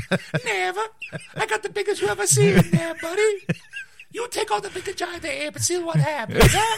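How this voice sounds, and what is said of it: High falsetto cartoon voice. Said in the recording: “He talks way up there ... That's like a real falsetto there.”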